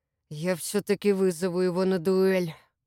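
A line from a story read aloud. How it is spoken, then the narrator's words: Growled. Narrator (Russian): прорычал Сергей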